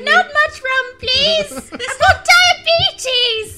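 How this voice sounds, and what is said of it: Old lady voice. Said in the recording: “In an old lady voice.”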